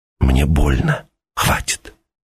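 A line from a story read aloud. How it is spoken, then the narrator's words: Whispered. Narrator (Russian): Она прошептала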